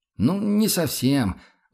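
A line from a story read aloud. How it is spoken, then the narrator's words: Sighing, emboldened cadet. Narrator (Russian): вздохнул окончательно осмелевший курсант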